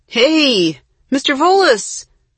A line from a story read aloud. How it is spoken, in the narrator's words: Jesse called out